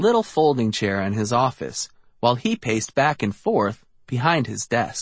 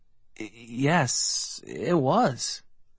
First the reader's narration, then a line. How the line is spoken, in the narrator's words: I murmured